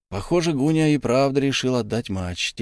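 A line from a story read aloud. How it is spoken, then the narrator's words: Quiet speech. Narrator (Russian): тихо сказал Чернышук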